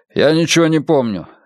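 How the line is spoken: Sharp. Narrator (Russian): резко сказал он

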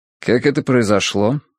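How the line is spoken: Calm, suppressed worry. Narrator (Russian): спокойно спросил он, подавив кольнувшее его беспокойство

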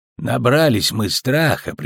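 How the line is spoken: Sighing admission. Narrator (Russian): признался Весемир и вздохнул

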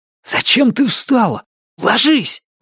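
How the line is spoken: Hissing. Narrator (Russian): прошипел он

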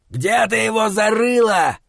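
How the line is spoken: Shouting. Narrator (Russian): закричал другой

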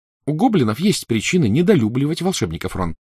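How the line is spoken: Plain. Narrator (Russian): сказала Гермиона

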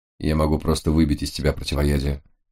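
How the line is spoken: Quiet. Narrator (Russian): тихо ответил Лис

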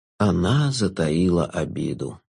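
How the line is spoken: Sighing. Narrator (Russian): вздохнул Шут

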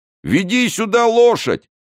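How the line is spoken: Thunderous shout. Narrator (Russian): крикнул Планше громовым голосом

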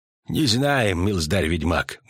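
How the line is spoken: Gruff mutter. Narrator (Russian): буркнул Тхун

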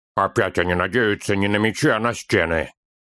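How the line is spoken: Grumbling. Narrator (Russian): проворчал Торин

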